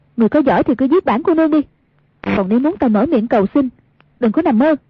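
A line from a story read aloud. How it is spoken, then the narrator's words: Loud defiant shout. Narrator (Vietnamese): không chịu nhận thua, cao giọng quát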